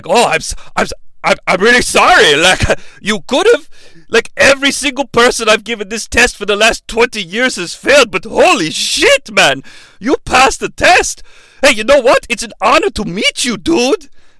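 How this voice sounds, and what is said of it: Imitates another person's accent. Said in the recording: “mimicking Christoph Waltz on accent”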